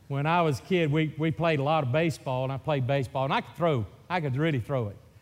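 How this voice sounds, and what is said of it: Mississippi Southern accent. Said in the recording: “Mississippi accent ... that is a hillbilly from Mississippi”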